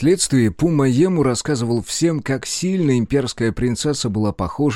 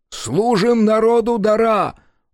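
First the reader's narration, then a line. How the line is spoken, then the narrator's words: Shouted in unison. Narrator (Russian): выкрикнули они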